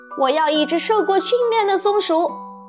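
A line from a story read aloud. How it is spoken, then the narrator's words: Shouting. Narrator (Chinese): 维卢克大叫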